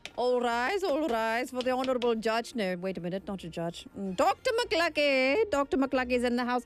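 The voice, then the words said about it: Inconsistent put-on accent. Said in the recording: “my accent is all over the place”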